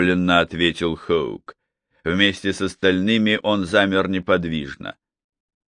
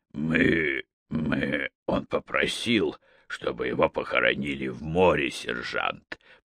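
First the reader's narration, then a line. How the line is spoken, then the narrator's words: Mumbled. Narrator (Russian): промямлил Хоук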